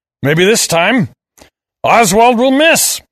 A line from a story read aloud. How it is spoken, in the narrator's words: I roared